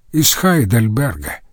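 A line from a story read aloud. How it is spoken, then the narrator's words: Plain. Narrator (Russian): ответил один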